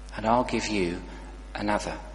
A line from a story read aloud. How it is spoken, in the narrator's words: he said, so gently